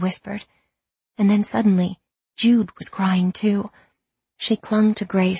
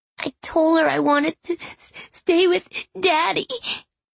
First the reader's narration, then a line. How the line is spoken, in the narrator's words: Grace said, sobbing